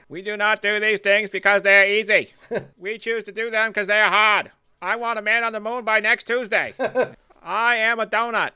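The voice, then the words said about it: John F. Kennedy impression, Boston accent. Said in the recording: “I can hear Kennedy. ... the Kennedy accent, nobody talks like that except for them and the guy from Jaws.”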